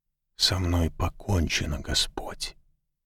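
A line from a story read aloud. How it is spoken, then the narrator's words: Whisper. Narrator (Russian): шепотом произнес он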